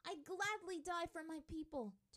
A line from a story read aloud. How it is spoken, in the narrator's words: Tylee yelled